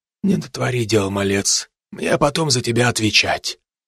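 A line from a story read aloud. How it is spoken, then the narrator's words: Quiet. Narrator (Russian): тихо сказал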